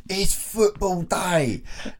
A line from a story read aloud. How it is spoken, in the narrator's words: one of them walks into a pub and shouts